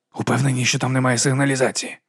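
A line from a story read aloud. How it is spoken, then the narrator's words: Whispered question. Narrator (Ukrainian): пошепки запитав Гаррі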